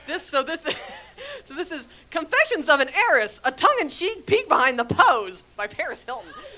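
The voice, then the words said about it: Sexy socialite heiress voice. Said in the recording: “put on my sexy voice, my sexy socialite heiress voice”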